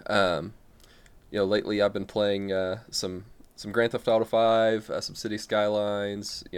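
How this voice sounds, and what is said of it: American Midwest accent. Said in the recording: “as you can probably tell by my differing accent... American... your stereotypical uh, living in the Midwest American here”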